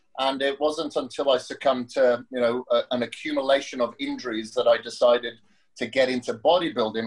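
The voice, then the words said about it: Welsh accent. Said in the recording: “the accent comes from Wales”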